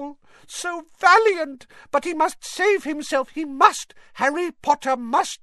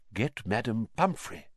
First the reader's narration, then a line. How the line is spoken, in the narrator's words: whispered Dumbledore